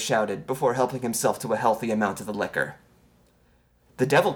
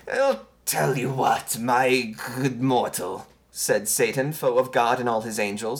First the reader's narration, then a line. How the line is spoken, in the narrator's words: his speech slightly slurred